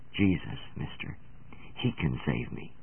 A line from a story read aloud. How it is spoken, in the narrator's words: her voice dropped almost to a whisper, and with infinite pathos in her words she replied